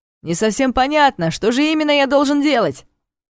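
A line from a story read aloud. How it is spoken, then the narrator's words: Loud commanding voice. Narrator (Russian): Лорану ответил Зорш своим громким командным голосом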